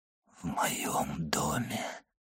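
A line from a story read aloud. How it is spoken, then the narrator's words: Whispered. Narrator (Russian): прошептал он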